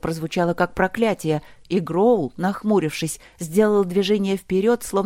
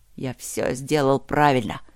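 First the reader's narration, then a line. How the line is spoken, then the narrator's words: Grumbling to himself. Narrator (Russian): проворчал он себе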